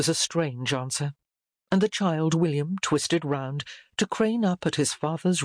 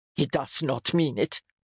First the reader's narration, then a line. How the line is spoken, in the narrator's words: the man spat